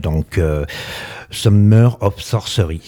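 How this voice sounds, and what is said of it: Good English accent on title. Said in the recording (French): “prononcé avec un bon accent anglais”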